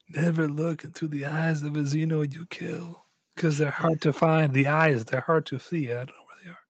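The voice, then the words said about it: Put-on unidentifiable accent. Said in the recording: “I don't know what accent that was, I'm sorry.”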